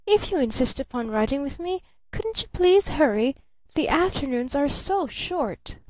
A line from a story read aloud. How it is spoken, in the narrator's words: she cried out